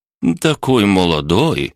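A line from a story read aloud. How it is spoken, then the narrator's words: Scoffing. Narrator (Russian): хмыкнул он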